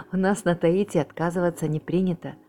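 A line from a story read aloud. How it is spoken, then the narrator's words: Laughing. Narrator (Russian): засмеялся Эдвард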